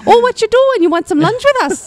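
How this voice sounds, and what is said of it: Put-on Minnesotan accent. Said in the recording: “Minnesotan accents? ... I feel like when you're talking to rats, that's the accent.”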